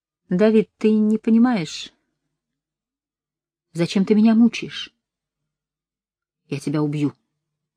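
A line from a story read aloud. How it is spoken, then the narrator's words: Plain. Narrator (Russian): сказал Давид Эннеру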